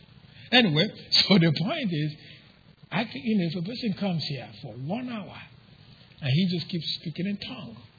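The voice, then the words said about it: Speaks English with a foreign accent. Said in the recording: “speak in a, with an accent, but that's not a foreign language. It's English. I just don't put accent where you put it.”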